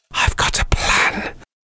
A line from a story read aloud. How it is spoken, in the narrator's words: whispered Robbie